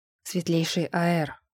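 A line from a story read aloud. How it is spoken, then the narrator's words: Deep bass voice. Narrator (Russian): пробасила стена голосом Брента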